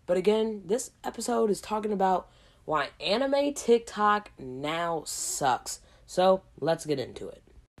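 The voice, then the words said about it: Hoarse, slightly lost voice. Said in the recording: “my voice does not sound normal, and that's because I'm currently sick right now ... coming down with a cold ... losing my voice a little bit. Or if I sound hoarse”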